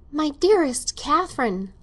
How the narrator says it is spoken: stammered Mrs

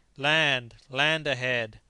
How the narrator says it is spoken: his voice rung out

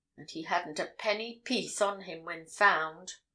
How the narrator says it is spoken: muttered Rathbury

